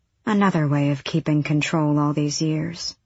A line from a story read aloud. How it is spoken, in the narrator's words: she murmured